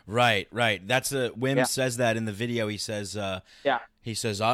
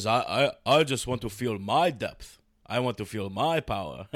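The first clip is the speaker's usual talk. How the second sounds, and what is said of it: Imitates another person's voice. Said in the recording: “that's my Wim impression.”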